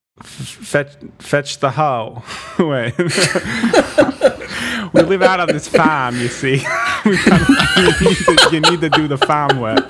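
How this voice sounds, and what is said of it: Put-on colonial Massachusetts accent. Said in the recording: “Her mom is colonial Massachusetts? ... God, spot on. ... with the accent”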